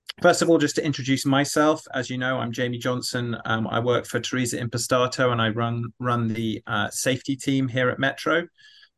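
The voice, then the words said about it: British London accent. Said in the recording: “You can tell that my accent is not from Alabama. I am indeed from London”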